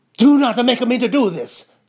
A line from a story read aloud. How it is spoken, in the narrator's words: cried Mrs